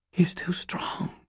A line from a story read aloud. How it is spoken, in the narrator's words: Fitz swallowed and whispered